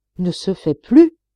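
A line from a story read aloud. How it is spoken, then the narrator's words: Young miner exclaiming. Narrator (French): s'écria le jeune mineur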